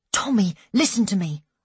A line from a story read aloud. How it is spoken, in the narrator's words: I said anxiously